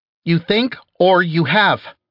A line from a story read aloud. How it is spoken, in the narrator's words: she snapped back